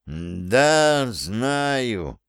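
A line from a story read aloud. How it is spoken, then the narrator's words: Tired. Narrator (Russian): устало произнес он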